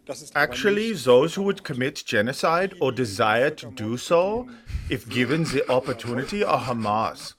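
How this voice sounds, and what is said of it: Put-on German accent. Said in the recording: “I did the accent again because you got to know he's German”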